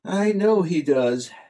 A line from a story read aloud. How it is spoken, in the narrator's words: sighed Zorn of Zorna